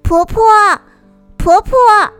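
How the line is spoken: Calling out from above. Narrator (Chinese): 阿山在树上喊了一声

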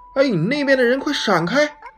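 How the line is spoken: Boy shouting. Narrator (Chinese): 男孩叫道

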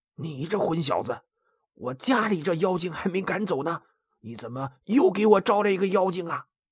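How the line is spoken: Low scolding. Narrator (Chinese): 高太公低声训斥高才说

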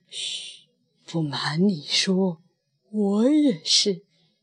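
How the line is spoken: Hushed low voice. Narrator (Chinese): 仆人压低了声音

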